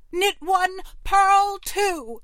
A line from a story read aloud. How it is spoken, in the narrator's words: cried Connie